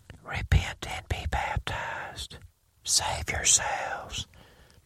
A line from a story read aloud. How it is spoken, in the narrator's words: Peter, whispers